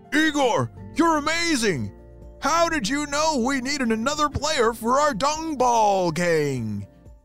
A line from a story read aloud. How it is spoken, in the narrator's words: shouted one of the dung beetles